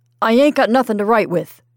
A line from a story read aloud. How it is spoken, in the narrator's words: thundered Mr